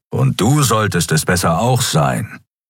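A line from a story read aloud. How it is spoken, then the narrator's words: Growl. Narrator (German): knurrte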